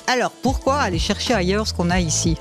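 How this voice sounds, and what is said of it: Put-on Valais Swiss French accent. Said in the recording (French): “Je vous fais avec l'accent parce que je suis moi-même valaisanne.”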